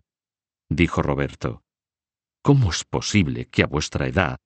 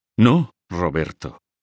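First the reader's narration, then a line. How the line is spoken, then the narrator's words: Exclaiming. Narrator (Spanish): exclamó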